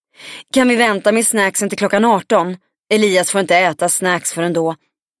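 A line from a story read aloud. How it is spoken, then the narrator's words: Woman calling out, slightly hysterical. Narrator (Swedish): En kvinna med lätt hysterisk blick ... ropade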